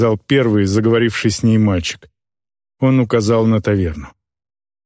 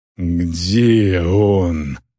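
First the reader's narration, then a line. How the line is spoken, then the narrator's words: Orc's growl. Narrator (Russian): прорычала орка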